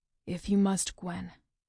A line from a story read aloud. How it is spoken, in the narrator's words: he says softly